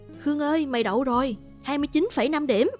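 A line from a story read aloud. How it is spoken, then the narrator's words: Excited shout. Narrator (Vietnamese): thằng Vũ hét lên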